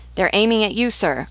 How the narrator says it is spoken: cried the gunners

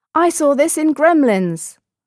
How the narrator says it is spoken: In Chinatown, another one yelled

